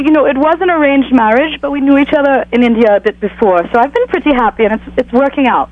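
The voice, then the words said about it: Indian-accented English. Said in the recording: “now I hear an accent, so where are you from? ... We are originally from India.”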